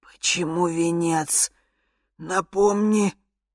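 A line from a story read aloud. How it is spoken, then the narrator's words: Hoarse, male, feigned indifference. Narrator (Russian): прохрипела я мужским голосом, стараясь звучать максимально безразлично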